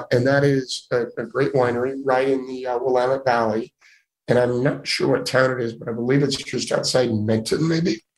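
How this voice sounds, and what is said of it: Hoarse voice. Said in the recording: “I'm sorry about my hoarse voice”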